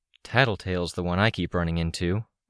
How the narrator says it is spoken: I muttered

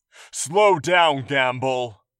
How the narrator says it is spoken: a guard hollered, very close to William

